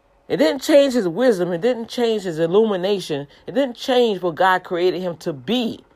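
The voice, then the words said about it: Speaks with a noticeable accent. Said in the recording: “Oh, she have an accent.”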